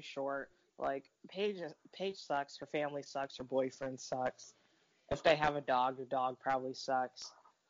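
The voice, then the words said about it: Tired, exhausted-sounding voice. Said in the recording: “why do you sound so exhausted ... She's so tired ... I always sound tired. I always sound like this.”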